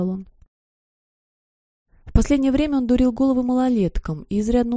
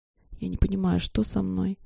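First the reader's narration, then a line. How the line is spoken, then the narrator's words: Apologetic whisper. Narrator (Russian): шептала, словно оправдываясь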